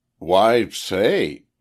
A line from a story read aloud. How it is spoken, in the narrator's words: he exclaims